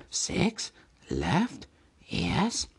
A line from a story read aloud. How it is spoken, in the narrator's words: he whispered